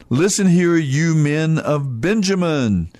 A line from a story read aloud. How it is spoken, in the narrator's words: Saul shouted to his officers